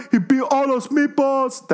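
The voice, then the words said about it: Imitates another person's voice. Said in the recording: “my impression of Josh”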